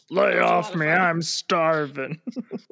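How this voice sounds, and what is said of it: Chris Farley impression. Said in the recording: “Great Chris Farley impression.”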